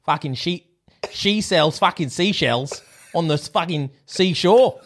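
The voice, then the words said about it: Put-on Australian accent. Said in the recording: “You're actually pretty decent in Australia. You've done a couple of Australian accents before.”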